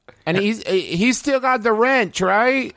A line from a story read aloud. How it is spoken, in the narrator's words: Hurley yells